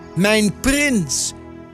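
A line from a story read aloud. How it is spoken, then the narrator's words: Calling out. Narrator (Dutch): riep Adelheid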